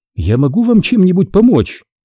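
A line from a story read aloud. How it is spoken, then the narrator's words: Tired but cheerful. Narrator (Russian): спросила она уставшим, но все же веселым голосом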